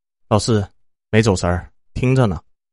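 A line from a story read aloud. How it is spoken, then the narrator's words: Flat, indifferent. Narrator (Chinese): 我淡淡的回了一句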